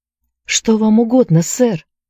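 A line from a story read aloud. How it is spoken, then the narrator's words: Exclaimed. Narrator (Russian): воскликнула Энн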